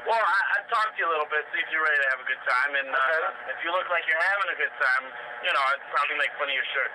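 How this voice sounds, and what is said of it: Boston accent. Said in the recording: “You already have the Boston accent, I can tell. You have the Boston accent.”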